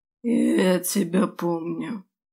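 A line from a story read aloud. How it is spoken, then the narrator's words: Inhuman creaking voice. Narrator (Russian): проскрипел он, в его голосе не осталось вовсе ничего человеческого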